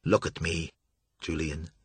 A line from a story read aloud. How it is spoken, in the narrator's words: Joshua called softly